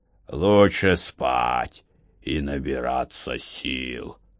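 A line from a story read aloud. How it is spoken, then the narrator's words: Sleepy mumble. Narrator (Russian): сонным голосом пробурчал Александр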